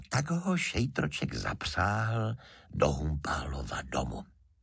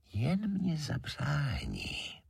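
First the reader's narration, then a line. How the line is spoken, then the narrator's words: Very softly whispered. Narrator (Czech): valach žemlička tichoučce pošeptá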